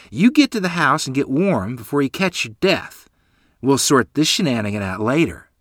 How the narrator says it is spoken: she exclaimed

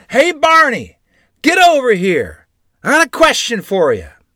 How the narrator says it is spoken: he hollered

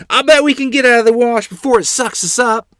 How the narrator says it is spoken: Trying to be brave for my horrified sisters, I hollered

